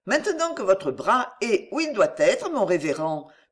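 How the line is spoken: Cheerful. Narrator (French): poursuivit gaiement Émilie

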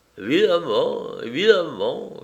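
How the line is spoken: Bewildered servant moaning. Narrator (French): gémit le domestique ahuri

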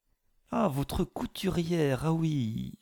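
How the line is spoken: Honeyed voice. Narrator (French): fit-il d'une voix mielleuse

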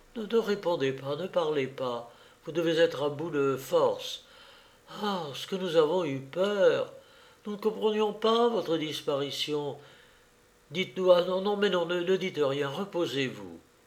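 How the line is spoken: Murmured. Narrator (French): Bertrande murmura

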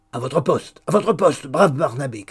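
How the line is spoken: Brusque, decisive shout. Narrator (French): cria Hugues, prenant son ton le plus brusque et le plus décidé

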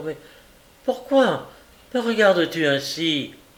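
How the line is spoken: Breathless, panting. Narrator (French): Les narines gonflées, la poitrine haletante

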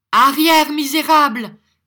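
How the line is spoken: Angry shout. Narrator (French): cria Nicolas, lâchant la bride au sentiment de colère qu'il avait contenu jusque-là

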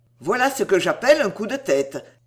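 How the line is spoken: Exclaiming. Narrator (French): s'écria Holdsworth

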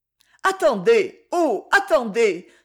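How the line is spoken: Passionate exclamation. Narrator (French): s'écria-t-elle avec un élan de passion

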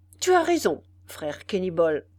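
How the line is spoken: Fisherman exclaiming. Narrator (French): s'écria le pêcheur

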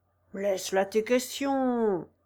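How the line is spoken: Thick, slurred voice. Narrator (French): disait le raisonneur d'une voix empâtée

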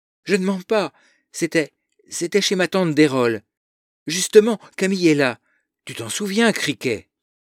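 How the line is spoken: Pleading. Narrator (French): la supplie

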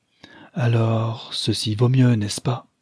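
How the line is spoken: Long sigh. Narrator (French): reprit-elle avec un long soupir

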